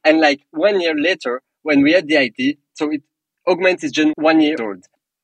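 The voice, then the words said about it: Non-native English accent. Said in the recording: “because of my accent, because of the fact that I make mistakes in English”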